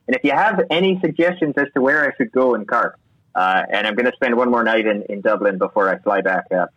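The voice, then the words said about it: Put-on Irish accent. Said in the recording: “as I slip back into my Irish accent.”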